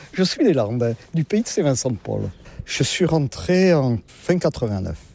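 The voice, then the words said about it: Southern French regional accent. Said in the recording (French): “comme vous l'entendez, je ne suis pas de la région... Avec mon accent, je ne suis pas du nord de la Loire”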